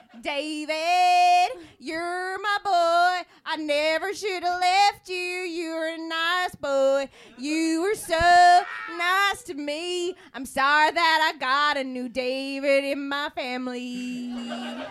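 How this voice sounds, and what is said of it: Singing in a put-on accent. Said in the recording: “that's my singing accent.”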